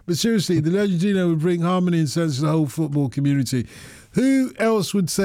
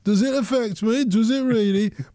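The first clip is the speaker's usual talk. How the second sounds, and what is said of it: Put-on Brummie accent. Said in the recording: “In my Brummie accent”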